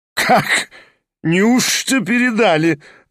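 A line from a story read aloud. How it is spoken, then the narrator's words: Laughing again. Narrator (Russian): рассмеялся опять Кармазинов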